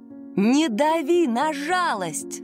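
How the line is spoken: Shouting again. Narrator (Russian): снова закричала она

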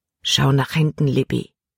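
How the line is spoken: Quiet. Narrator (German): sagte er leise

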